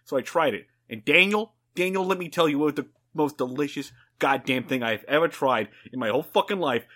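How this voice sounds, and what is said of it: Solid put-on Boston accent. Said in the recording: “Was that a Boston accent? ... Kinda, yeah. ... That was a solid Boston accent.”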